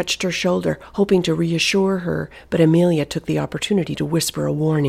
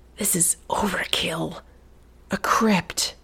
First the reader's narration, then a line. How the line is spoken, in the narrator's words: Amelia whispered in disbelief